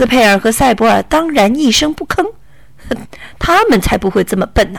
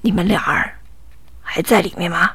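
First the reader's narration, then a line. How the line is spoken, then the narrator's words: Soft question. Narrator (Chinese): 一个声音轻轻的问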